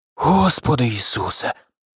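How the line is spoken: Muttering. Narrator (Ukrainian): пробурмотів

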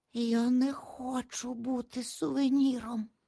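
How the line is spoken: Barely whispered, numb lips. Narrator (Ukrainian): ледве прошепотів Назар отерплими губами

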